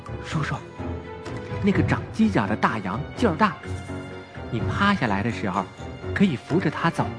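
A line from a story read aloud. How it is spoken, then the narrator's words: Worried quiet speech. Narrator (Chinese): 雨来担心他走不动，又忍不住走过去小声说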